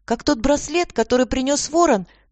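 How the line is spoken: Exclaiming woman. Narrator (Russian): воскликнула любительница других миров

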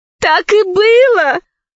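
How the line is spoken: Tearful exclamation. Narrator (Russian): воскликнула, обливаясь слезами, Заури

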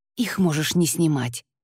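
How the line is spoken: Whisper. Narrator (Russian): шепнул он

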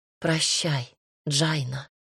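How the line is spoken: Tearful whisper. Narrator (Russian): прошептала

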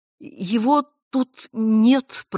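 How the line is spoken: Flustered babbling like a schoolgirl. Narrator (Russian): пролепетала она, как семиклассница, провалившая роль в школьном драмкружке

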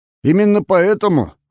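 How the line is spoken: Scoffing grunt. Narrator (Russian): хмыкнул Николай Патрушев

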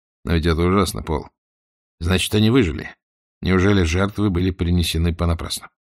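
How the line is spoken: Quiet. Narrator (Russian): он тихо сказал

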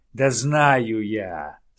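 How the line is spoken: Pompous bear growl. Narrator (Russian): с важным видом рыкнул на него медведь

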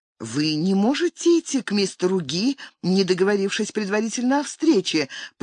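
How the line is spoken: Trying to explain. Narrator (Russian): пыталась толковать

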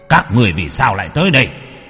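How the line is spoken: Stern shout. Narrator (Vietnamese): Âm sai kia quát

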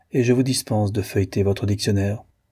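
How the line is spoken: Cold. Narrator (French): dit le colonel froidement

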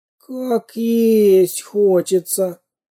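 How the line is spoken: Hungry moan. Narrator (Russian): простонал он

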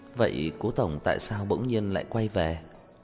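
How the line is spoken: Hesitant, nervous. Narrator (Vietnamese): Đầu ngón tay Tần Chỉ Ái khẽ run lên, rốt cục lên tiếng

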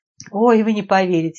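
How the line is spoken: Amused snort. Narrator (Russian): Надежда фыркнула, вспомнив тот эпизод

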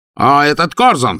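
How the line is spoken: Shouting. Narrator (Russian): закричал он

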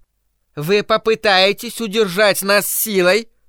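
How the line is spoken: Shrill elderly woman. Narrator (Russian): Пронзительным голосом спросила престарелая леди

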